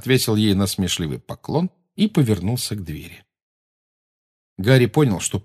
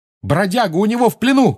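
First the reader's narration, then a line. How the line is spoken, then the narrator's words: Shouting. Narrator (Russian): крикнул он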